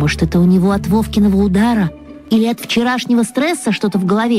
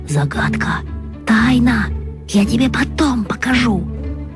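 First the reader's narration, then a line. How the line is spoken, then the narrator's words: Whisper in the ear. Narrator (Russian): зашептал мне на ухо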